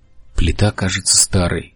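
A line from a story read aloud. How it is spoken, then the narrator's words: Whisper. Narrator (Russian): прошептал Бартоломью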